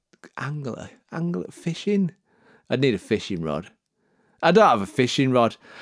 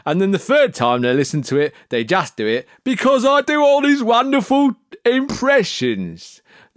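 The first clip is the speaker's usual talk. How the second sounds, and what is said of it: Put-on Jamaican accent. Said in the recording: “That was my Jamaican accent.”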